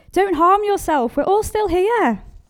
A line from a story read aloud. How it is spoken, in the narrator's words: Paul shouted